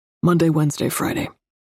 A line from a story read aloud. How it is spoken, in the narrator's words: he grunts